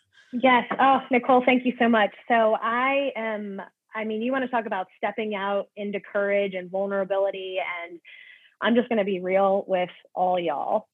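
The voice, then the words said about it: South Carolina twang. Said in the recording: “my South Carolina twang coming out”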